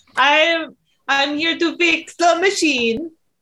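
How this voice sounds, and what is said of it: Put-on Mario-style accent. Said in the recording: “I'm going to do an accent. ... Fucking Mario and Luigi.”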